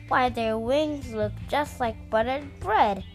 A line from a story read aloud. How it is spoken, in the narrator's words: exclaimed